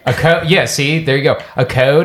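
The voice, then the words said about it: Slightly English-sounding pronunciation. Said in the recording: “It almost does sound English. Like yeah, ever so slightly.”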